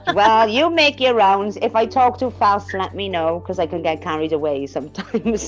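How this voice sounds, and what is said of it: Welsh accent. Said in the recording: “I love your accent. And now that is a Welsh accent, correct?”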